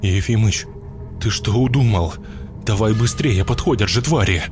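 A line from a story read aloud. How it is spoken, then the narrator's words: Trembling shout, priest. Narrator (Russian): Дрожащим голосом кричал священник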